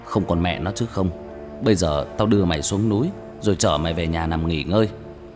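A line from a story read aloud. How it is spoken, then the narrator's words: Irritated, gritted voice. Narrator (Vietnamese): bực mình, gằn giọng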